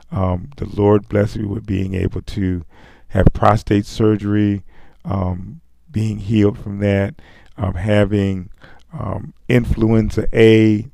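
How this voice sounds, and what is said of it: Scratchy, hoarse voice. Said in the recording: “You can still hear it in my voice. It's kind of scratchy”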